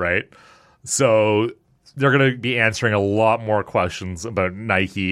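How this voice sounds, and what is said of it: Usual voice. Nothing is said of it.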